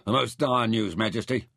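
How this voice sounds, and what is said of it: Gruff character voice. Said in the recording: “His voice was gruff.”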